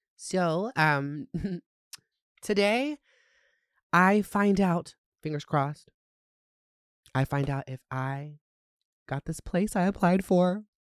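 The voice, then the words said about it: Phlegmy, congested voice. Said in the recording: “I have really bad allergies, so I'm a little phlegmy.”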